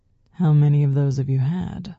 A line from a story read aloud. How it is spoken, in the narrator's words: James purred in my ear